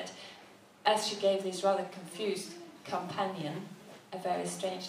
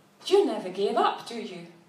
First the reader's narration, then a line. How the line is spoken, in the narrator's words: the dark-eyed, handsome gentleman suddenly snapped